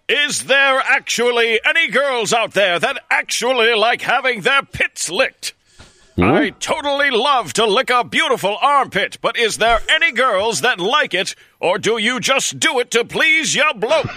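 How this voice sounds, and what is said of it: Good put-on English accent. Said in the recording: “That's another very good English accent.”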